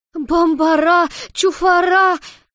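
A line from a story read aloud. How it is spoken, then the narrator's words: Furious shrieking whirlwind. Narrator (Russian): Яростно взвизгнул налетевший вихрь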